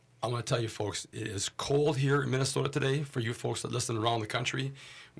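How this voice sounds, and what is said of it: Voice rougher than usual. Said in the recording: “my voice is a little bit less quality than it usually is here”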